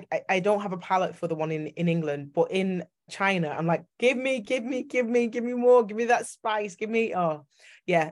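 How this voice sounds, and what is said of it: Yorkshire English accent. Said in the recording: “I get told I've got a Yorkshire accent”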